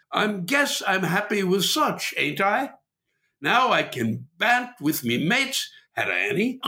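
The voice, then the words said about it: Poor put-on British accent. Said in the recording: “my British accent is something to behold ... Sorry for butchering the British accent there. I always do. I'm not great at accents.”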